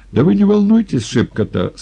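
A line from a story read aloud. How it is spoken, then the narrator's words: Cheered-up voice. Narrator (Russian): сказал Николай повеселевшим голосом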